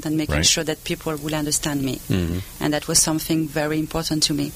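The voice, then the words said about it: French accent. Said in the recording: “she has some kind of French accent”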